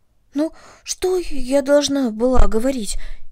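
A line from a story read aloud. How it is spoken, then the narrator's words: Frightened question. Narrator (Russian): испуганно спросила Карнели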